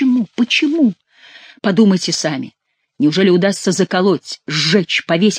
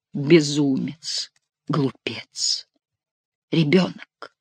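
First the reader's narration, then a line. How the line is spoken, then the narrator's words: Whisper. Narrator (Russian): прошептала Флорентийка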